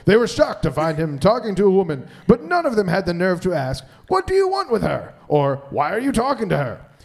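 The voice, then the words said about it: Dramatic reading voice. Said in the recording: “dramatic voice”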